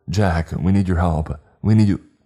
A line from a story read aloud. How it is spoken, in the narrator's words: He shouted